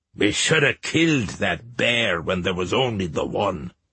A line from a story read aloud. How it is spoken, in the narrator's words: an old man grumbled